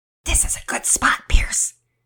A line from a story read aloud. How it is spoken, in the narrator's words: Finn whispered excitedly